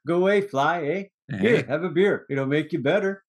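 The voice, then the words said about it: Put-on Canadian accent. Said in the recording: “Canadian accent ... bad impersonations and accents”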